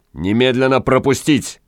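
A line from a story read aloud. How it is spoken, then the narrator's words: Loud bark. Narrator (Russian): гаркнул странник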